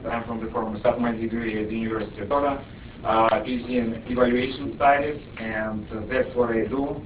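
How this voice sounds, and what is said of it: Russian accent. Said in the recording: “You can recognize it. So please bear with me on that. ... I'm Russian, with Russian accent.”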